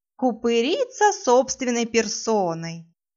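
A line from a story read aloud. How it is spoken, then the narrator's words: Mocking. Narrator (Russian): насмешливо добавила она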